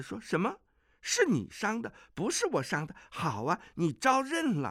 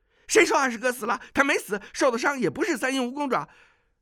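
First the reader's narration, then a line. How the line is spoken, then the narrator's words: Shouting man. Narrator (Chinese): 那矮子叫道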